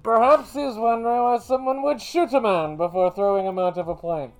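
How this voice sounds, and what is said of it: Bane character voice impression. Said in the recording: “my best Bane impression ... I love doing the Bane voice.”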